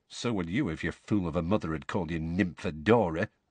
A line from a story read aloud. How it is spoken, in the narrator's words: muttered Tonks